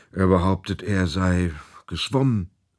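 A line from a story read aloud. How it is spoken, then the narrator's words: Sigh. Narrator (German): seufzte auch Theo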